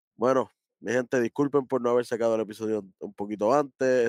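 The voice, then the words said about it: Deep, rough, sick-sounding voice. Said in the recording (Spanish): “poco malo de salud, la voz no es la misma ... con una voz de ultratumba aquí”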